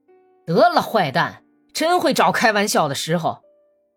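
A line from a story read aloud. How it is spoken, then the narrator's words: Angry cursing. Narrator (Chinese): 安吉普什卡却怒冲冲地骂起娘来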